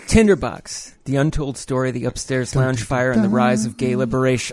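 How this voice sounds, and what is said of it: Announcer-style radio voice. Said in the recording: “Did I get my radio voice? ... Oh, yes. ... Yeah. Oh, yeah.”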